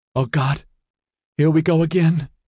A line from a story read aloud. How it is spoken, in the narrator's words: Justine whimpered